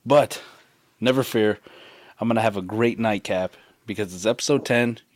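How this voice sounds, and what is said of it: Hoarse, partly lost voice. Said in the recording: “My voice is a little bit gone, but your boy was out there getting sunburned all day, cheering”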